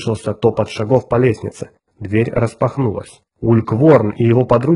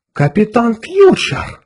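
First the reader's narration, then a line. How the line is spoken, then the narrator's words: Breathed out. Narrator (Russian): выдохнул Лу Сенту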